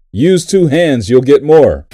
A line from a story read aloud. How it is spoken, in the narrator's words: the Amish man shouts back in English